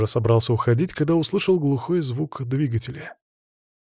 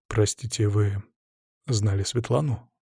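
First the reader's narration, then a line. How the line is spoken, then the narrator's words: Quiet gentle question. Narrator (Russian): спросил тихо, чтобы не отпугнуть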